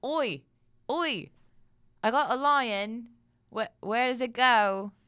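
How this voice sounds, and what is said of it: Exaggerated put-on Cockney accent. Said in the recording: “that ridiculous Cockney accent”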